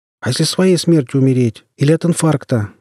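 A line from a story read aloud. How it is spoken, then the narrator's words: Shouted. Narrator (Russian): выкрикнул кто-то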